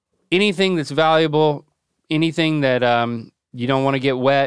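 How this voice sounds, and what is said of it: Usual voice. Nothing is said of it.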